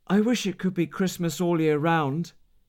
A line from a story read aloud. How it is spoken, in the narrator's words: he said